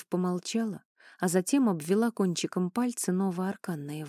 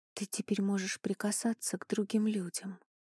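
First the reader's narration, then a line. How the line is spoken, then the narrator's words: Whisper. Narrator (Russian): прошептала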